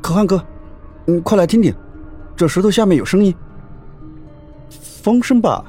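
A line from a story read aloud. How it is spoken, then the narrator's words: Tired, panting. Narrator (Chinese): 李有忠累趴在那石头上喘气，忽然他说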